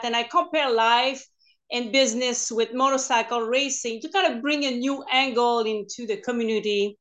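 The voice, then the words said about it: French Canadian accent. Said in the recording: “I'm French Canadian, so I started to speak English only 2007 part-time ... So bear with my accent”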